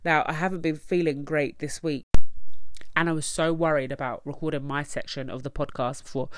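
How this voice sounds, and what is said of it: Nasal, congested voice. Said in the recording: “I'm quite nasally and I've sniffed ... I sound really nasally”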